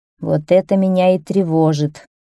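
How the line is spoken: Sighing king. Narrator (Russian): вздохнул король

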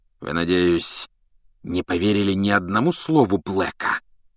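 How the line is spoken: Hiss. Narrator (Russian): прошипел он

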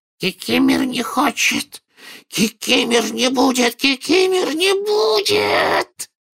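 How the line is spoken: Loud hoarse croak. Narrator (Russian): прохрипел домовик так же громко, как и дядя Вернон

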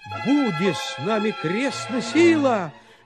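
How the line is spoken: Shouted. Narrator (Russian): закричал тогда Гаврила

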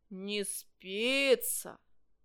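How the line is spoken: Stern. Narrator (Russian): строго сказал метеоролог

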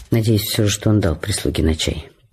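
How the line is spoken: Muttered self-encouragingly. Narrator (Russian): пробормотала она, чтобы себя подбодрить

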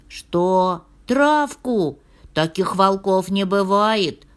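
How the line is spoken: Bear cub shouting. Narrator (Russian): кричал медвежонок

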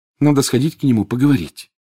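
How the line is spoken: Sighed. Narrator (Russian): вздохнула Гермиона

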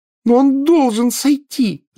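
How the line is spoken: Yelling. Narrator (Russian): завопила Гермиона

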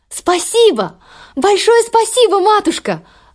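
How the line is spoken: Exclaimed. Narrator (Russian): воскликнула Золушка

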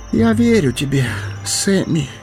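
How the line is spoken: Hoarse. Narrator (Russian): хрипло проговорил он

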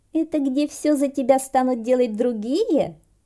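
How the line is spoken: Giggling in chorus. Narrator (Russian): хором хихикнули Василисы

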